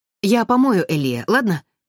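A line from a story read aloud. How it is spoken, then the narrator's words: Hurried. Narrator (Russian): торопливо проговорил он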